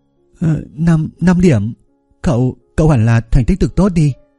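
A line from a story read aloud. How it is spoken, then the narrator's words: Blushing, slightly fearful. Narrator (Vietnamese): sắc mặt Lý Dung Dung liền đỏ lên một chút, có chút sợ hãi nói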